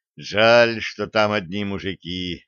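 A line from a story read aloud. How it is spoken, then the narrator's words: Sighing. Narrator (Russian): вздохнул Блад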